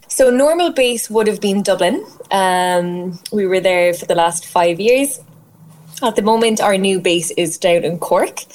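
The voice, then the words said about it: Irish Cork accent. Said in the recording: “My accent probably has given it away. I'm a very proud Cork woman”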